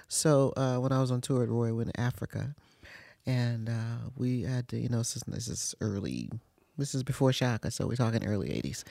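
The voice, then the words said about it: Tired, worn evening voice. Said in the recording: “You can tell by your voice. ... This is my end of the evening voice.”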